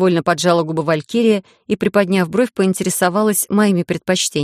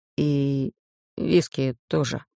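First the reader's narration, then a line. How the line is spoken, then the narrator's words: Whispering young man. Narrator (Russian): прошептал паренек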